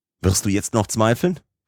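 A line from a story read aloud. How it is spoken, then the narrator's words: Uncle exclaiming. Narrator (German): rief mein Oheim aus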